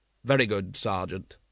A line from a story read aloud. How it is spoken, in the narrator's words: said Vimes coldly